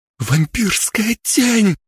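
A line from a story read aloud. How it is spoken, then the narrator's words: Strangled exclamation. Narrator (Russian): сдавленно воскликнул Мэри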